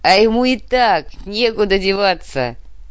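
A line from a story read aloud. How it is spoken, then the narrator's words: Laughing. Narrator (Russian): рассмеялся Осиновский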